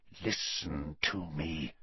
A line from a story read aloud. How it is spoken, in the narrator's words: said Snape, his voice so low now that Harry had to push his ear very hard against the keyhole to hear